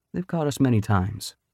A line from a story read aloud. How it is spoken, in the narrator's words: Anthony said gently